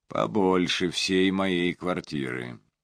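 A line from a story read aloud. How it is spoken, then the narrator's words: Quiet whistle. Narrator (Russian): Теллер тихо присвистнул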